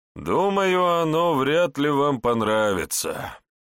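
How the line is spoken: Sighed. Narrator (Russian): вздохнул Гус

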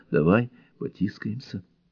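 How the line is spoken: Whisper. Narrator (Russian): девушка … прошептала

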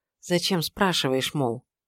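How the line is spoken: Quiet. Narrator (Russian): проговорила тихо

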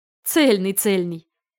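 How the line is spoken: Laughing. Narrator (Russian): Рассмеялся принц

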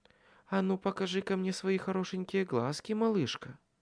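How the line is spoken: Purring. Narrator (Russian): мурлыкнула она

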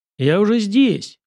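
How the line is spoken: Angry smirk. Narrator (Russian): зло усмехнулся Сашка

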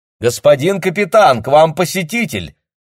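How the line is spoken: Calling out loudly. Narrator (Russian): крикнула она

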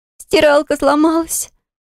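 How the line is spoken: Tearful, breaking into sobs. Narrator (Russian): сказала сестра и разрыдалась

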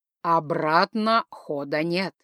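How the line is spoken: Sepulchral proclamation. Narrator (Russian): загробным голосом возвестил он

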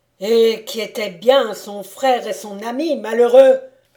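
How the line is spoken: Thundering voice. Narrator (French): dit Conrad d'une voix tonnante

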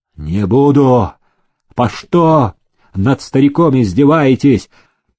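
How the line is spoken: Frantic scream. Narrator (Russian): Истошно закричал парень

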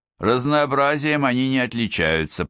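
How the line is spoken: Grumbling. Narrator (Russian): проворчал он

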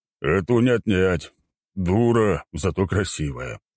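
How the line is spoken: Sighing. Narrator (Russian): вздохнул Горн

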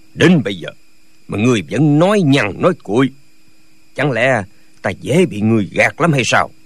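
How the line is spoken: Harsh, gritted-teeth anger. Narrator (Vietnamese): Nhạc Bất Quần tái xanh, lão hứa một tiếng rồi gằn giọng nói

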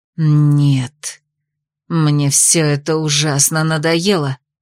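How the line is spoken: Growled. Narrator (Russian): зарычала Ада

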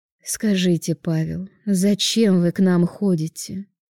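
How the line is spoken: Weary sigh. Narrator (Russian): Устало вздохнув

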